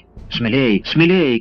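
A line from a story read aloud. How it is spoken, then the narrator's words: Young man shouting. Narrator (Russian): кричал молодой капитан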